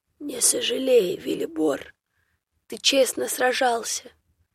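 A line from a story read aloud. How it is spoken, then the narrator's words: Quiet reply. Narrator (Russian): тихо отвечал Драмид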